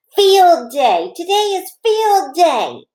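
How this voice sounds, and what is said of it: Excited shouting. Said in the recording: “I couldn't stop shouting that happy news ... I shouted to my dog named Tickle”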